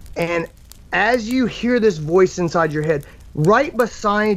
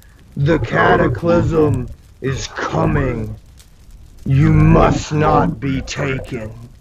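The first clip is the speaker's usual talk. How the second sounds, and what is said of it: Deep character voice. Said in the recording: “you hear this deep voice”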